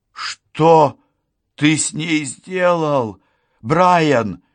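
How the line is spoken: Cry. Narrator (Russian): вскрикнула я

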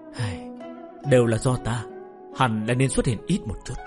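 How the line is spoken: Sighing emotional whisper. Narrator (Vietnamese): Bạch Tiểu Thuần cảm khái thở dài thì thào nói thầm

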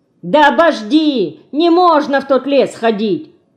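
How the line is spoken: Impatient shout. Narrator (Russian): Потеряв терпение, крикнул Дмитро

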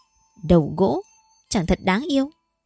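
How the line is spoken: Laughing, playful. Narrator (Vietnamese): Như Phong bật cười nói

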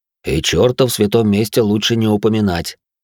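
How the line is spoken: Priest correcting with a snort. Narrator (Russian): хмыкнув поправил священник

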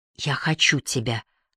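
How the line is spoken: Whisper. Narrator (Russian): прошептала она

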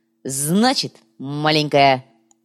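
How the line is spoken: Barked. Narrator (Russian): рявкнул коряга

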